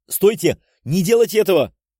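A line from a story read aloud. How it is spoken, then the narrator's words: Shouted. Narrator (Russian): выкрикнул я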